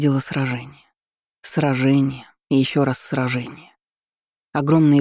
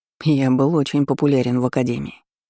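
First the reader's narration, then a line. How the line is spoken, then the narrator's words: Snorting. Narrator (Russian): хмыкнул маг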